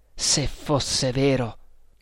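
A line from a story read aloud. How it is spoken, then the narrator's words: Trembling murmur. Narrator (Italian): mormorò con voce tremante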